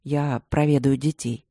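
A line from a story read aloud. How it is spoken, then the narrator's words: Plain. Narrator (Russian): сказал муж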